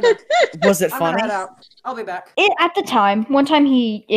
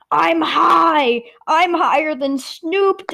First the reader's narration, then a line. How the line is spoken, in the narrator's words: shouting